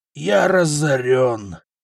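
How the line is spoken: Groaning. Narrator (Russian): простонал купец

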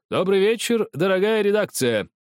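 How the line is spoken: Said loudly. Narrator (Russian): громко сказал он

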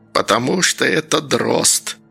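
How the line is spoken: Old woman's hiss. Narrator (Russian): прошипела бабка

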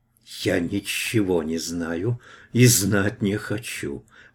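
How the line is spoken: Hissed. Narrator (Russian): прошипела висящая

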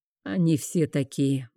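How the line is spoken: Gloomy. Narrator (Russian): мрачно произнес хранитель

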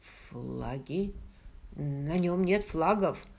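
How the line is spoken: Mumbled. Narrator (Russian): Смиту, который пробормотал

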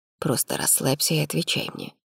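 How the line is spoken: Whisper. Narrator (Russian): шепнул Арман

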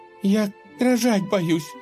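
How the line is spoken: Sobbing. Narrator (Russian): всхлипывая, проговорила Любава

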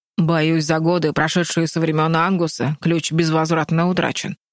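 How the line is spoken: Said gloomily. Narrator (Russian): мрачно сказал Дингиор

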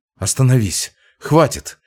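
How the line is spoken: Frightened. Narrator (Russian): испуганно сказал

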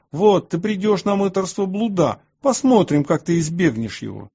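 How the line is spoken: Furious shouting. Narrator (Russian): В ярости они кричали на меня и говорили

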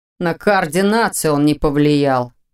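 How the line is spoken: Grumbling. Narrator (Russian): проворчал Ваня

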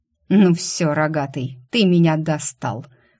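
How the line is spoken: Angry hiss. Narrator (Russian): прошипел Светлый

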